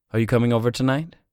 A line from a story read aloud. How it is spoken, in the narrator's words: she asked